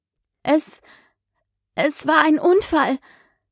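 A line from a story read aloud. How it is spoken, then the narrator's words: Croaking. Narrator (German): krächzte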